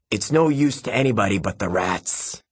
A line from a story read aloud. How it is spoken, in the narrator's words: cackled suddenly